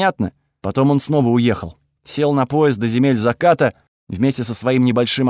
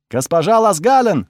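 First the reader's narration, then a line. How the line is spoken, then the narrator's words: Distant shouting. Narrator (Russian): закричали в прихожей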